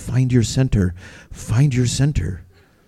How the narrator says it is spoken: She ... gently whispering

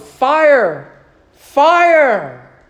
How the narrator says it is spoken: in the crowded hall, a fool shouted

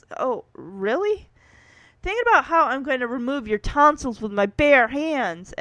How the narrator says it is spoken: Kevin nervously asks

